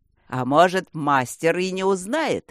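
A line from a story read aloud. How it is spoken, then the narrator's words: Giant's optimistic shout. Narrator (Russian): оптимистично выкрикнул зеленый гигант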